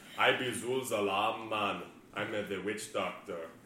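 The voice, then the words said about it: Poor put-on Jamaican accent. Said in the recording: “my terrible Jamaican accent ... Did I just go Italian there?”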